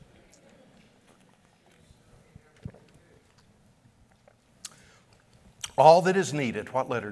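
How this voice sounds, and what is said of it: Usual voice. Nothing is said of it.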